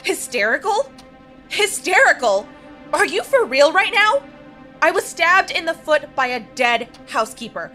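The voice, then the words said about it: Raised, near-hysterical angry voice. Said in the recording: “you are verging on hysterical ... raise my voice”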